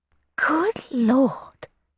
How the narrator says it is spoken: she breathed

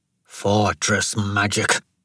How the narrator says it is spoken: Devadas snarled

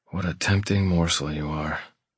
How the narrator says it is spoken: I mutter

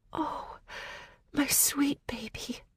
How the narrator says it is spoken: she whispered against my hair

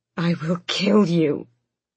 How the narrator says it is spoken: Aelin snarled

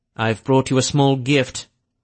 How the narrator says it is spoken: he said in that cold, almost arrogant tone

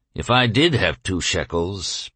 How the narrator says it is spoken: Bansir responded gloomily

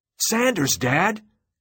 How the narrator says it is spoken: Cubby shouted

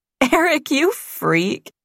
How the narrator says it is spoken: Diane said, laughing

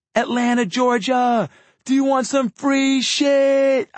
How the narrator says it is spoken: I yelled to the crowd

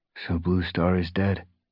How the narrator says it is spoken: he murmured his eyes clouded with grief

